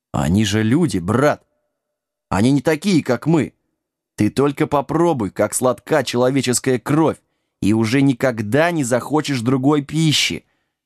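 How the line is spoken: Gentle, coaxing. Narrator (Russian): ласково начал один

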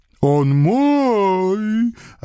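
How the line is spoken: Offended vampire howl. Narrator (Russian): обиженно взвыл вампир

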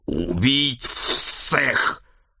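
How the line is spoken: Snake-headed mutant growling. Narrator (Russian): прорычал чешуйчатый мутант с телом человека и головой змеи

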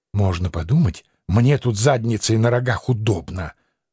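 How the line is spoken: Indignant hiss. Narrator (Russian): возмущенно прошипел Анцифер

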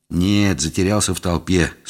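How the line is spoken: Gloomy sigh. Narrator (Russian): сумрачно вздохнул я

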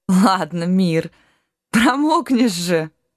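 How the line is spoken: Laughing, young woman. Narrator (Russian): Расхохоталась дочь рыцаря

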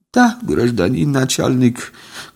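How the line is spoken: Bitter sigh, young woman. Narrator (Russian): горько вздохнула молодая женщина

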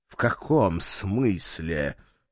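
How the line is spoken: Doglike snort. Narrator (Russian): по-собачьи фыркнул он

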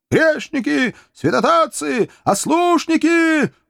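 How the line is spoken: Two voices shouting fanatically. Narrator (Russian): уже не скрывая фанатизма, два голоса кричали

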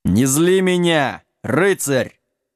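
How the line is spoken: Sudden growl, castle lord. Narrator (Russian): неожиданно зарычал хозяин замка

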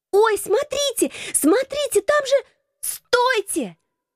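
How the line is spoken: Screaming. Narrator (Russian): завопила я

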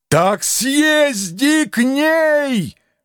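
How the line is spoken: Helpless yell. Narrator (Russian): В окончательном бессилии заорал

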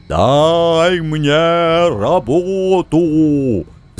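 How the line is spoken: Demon's roar. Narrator (Russian): взревел демон

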